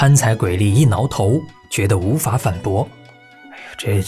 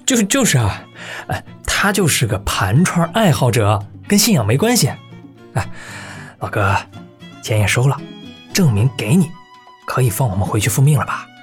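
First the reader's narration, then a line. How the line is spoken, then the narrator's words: Suppressing laughter. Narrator (Chinese): 蓝河狂忍笑，埋头说道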